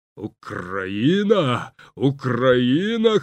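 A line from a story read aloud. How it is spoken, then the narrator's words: Hoarse wheezing voice. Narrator (Ukrainian): хрипів Людвіг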